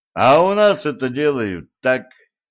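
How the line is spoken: Laughing. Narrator (Russian): засмеялся Денис

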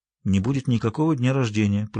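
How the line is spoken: Quiet. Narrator (Russian): произнес он тихо

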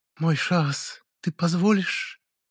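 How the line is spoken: Languid coo, drawn-out sibilants. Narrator (Russian): Томно проворковала женщина, как-то странно растягивая шипящие звуки

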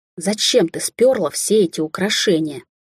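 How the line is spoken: Hissing. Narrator (Russian): зашипела на Алисию Бриана

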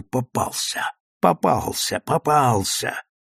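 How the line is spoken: Many people whispering. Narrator (Russian): многие в зале суда стали шептать друг другу

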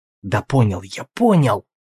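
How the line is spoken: Whispered reply. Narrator (Russian): таким же шепотом ответил Алвис

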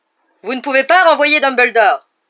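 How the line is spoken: Very loud yell. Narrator (French): hurla-t-il si fort

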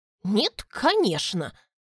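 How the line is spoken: Snort. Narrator (Russian): фыркнула Изалия

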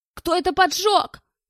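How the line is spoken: Shouted. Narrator (Russian): крикнул Белл

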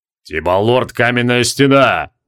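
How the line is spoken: Booming big man. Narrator (Russian): прогудел здоровяк

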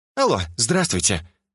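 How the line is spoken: Cheerful. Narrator (Russian): бодро начала Джина

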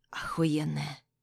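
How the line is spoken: Quiet. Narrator (Russian): выдает тихо

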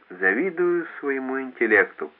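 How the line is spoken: Muttering. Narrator (Russian): пробормотал

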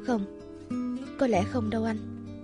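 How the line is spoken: Soft reply. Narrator (Vietnamese): khẽ đáp

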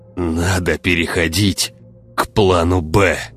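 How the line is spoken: Strained, forced out. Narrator (Russian): выдавил ученый

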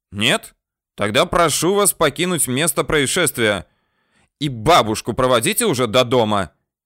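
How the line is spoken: Shouted. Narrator (Russian): крикнул

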